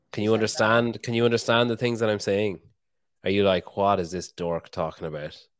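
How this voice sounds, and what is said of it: Irish accent. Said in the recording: “Can you understand my accent? Have you heard an Irish accent before?”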